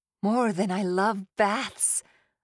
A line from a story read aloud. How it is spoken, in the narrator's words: groaned